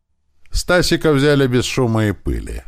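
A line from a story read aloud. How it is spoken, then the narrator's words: Laughing. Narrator (Russian): хохотнул он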